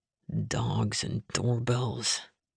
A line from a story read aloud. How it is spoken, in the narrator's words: he muttered, annoyance lacing his words